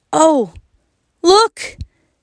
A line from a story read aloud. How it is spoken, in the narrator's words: yelled Wayne